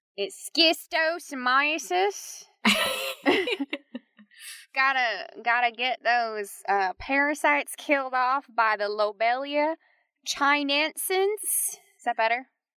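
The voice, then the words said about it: Exaggerated Tennessee accent. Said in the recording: “we can put the Tennessee part of you away, please ... that is an exaggerated version of my Tennessee accent”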